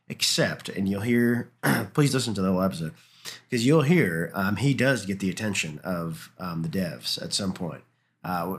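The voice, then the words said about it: Slightly off, unwell-sounding voice. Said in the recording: “I am a little bit under the weather... My voice is a little off”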